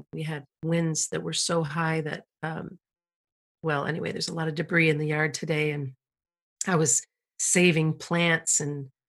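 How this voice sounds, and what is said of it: Tired, worn-down voice. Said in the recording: “you might even hear it in my voice. I know that uh, that I'm already feeling a little bit worn down”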